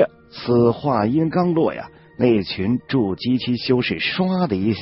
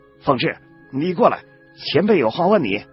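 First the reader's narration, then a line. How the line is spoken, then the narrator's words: Startled, loud shout. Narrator (Chinese): 儒生同样的大感愕然呢，但马上头也不回的大喊了一声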